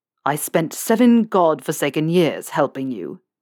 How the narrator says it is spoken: Snape snarled

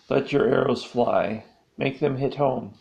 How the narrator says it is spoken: Princet chirped

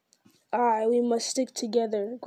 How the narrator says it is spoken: growled Ugluk

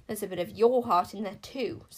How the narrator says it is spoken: Sycorax snapped Incanzo

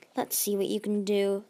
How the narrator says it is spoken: Magnificent grumbled

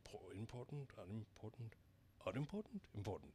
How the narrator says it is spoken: the king hastily said, in an undertone

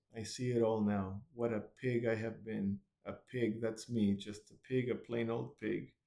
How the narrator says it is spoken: muttered gloomily

